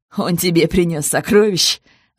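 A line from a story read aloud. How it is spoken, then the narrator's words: Laughing. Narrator (Russian): рассмеялся Саш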